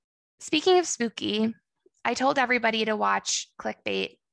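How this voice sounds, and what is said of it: Usual voice. Nothing is said of it.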